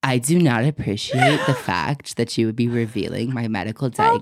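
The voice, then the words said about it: Imitates another person's voice. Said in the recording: “can you do your Seth voice? ... It sounds just like him. ... That literally sounds like it.”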